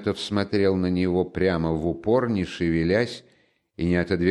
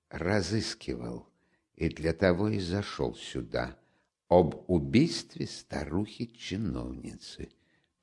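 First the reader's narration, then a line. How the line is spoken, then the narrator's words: Almost a whisper. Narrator (Russian): произнес он, наконец, почти шепотом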